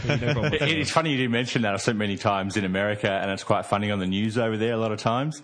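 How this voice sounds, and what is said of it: Strong Australian accent. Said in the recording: “Oh, so ochre. I feel like you've just strutted out of a sheep farm... it's a bloody great accent, the Australian accent... I can't tell what he's saying at all”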